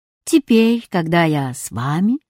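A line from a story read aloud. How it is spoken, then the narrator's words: Calm textbook voice. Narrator (Russian): спокойно сказал учебник географии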